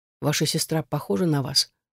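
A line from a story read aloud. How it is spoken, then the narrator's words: Whispered question. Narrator (Russian): спросил шепотом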